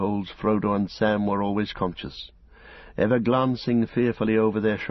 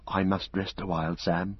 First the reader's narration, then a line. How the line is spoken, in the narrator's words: whispered Frodo